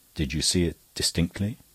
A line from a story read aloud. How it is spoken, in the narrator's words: the barrister said, in a lower voice, which seemed at once sympathetic and creepy